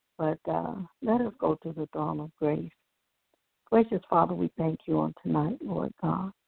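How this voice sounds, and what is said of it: Slightly hoarse voice. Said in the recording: “Excuse my voice. I'm allergies. I'm a little hoarse.”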